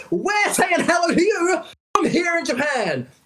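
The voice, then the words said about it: Loud, hyped promotional announcer voice. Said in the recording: “doing my PR voice. ... It's going to be spruking the entire time. ... being too noisy”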